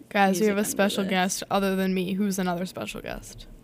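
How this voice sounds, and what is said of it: Scratchy, hoarse voice. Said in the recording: “My voice is so scratchy.”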